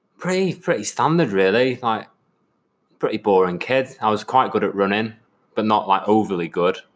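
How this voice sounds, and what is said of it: Mixed northwest English accent. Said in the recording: “this weird Birkenhead, Cheshire, Scouse, Manc, a bit Paul O'Grady accent”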